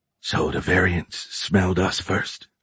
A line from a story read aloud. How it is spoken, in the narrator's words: Ace grumbled quietly